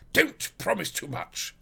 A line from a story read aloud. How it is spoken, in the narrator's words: snapped the detective